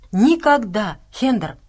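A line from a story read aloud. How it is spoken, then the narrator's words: Exclaimed. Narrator (Russian): воскликнула Настя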